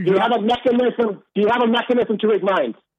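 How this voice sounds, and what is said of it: Screaming angrily. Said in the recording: “why are you screaming? ... why are you screaming”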